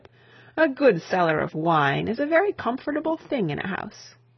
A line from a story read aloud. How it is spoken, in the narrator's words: laughed the bishop